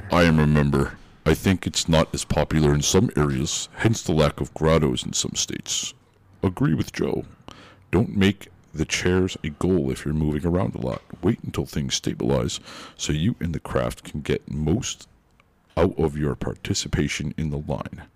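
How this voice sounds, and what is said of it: Deep low imitated voice. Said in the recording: “do my best Ken voice ... Get real low there ... Not bad”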